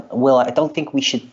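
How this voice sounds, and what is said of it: Awful put-on American accent. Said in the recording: “This is me doing an American accent, which is awful.”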